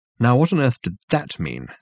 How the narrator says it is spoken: said Dirk, irritably

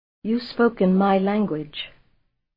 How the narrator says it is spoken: controlling himself, he said calmly

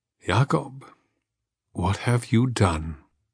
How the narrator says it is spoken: she said softly

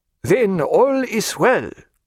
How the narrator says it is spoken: cried Jagiello

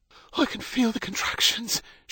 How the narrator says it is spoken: gasped

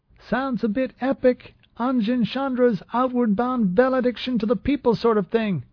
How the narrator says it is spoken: Trep shouted

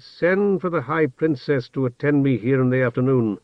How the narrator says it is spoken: Laban returned his stare icily and said

